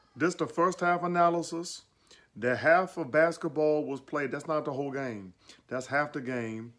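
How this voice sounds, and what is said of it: Charles Barkley impression. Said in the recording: “his Barkley impersonation”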